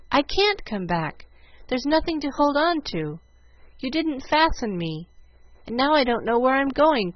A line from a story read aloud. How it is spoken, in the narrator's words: cried Jill